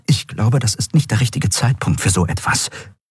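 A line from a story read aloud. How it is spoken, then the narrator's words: Whispered. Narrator (German): flüsterte Kai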